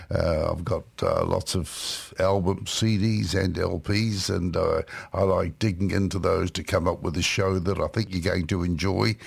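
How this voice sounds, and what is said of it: New Zealand accent. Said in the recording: “the strange accent attached to a bluegrass music show, it's because this is how I've always spoken, because I come from New Zealand”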